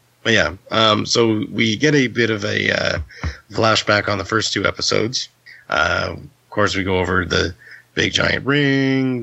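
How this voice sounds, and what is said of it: Raspy hoarse voice. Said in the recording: “my voice is still sort of raspy getting over this flu... you actually sound like worse this time than last week... Last week you sounded like Batman, this week you sound like a robot”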